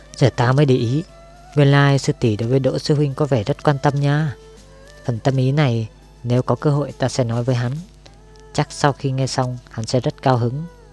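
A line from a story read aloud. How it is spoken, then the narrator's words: Teasing chuckle. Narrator (Vietnamese): hắn khẽ nhíu mày, cười hì hì nói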